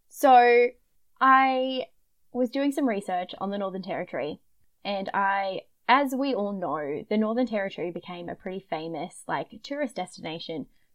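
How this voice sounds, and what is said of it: Broad Queensland Australian accent. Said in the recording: “it's just my bogan Queensland accent”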